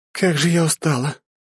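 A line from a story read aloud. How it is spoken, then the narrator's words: Tired girl moaning. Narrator (Russian): простонала девушка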